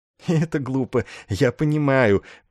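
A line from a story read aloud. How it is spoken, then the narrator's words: Girlish giggling agreement. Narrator (Russian): по-девичьи хихикнув, согласился майор Сэндерсон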